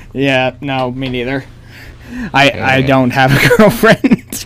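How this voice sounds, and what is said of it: Usual voice. Nothing is said of it.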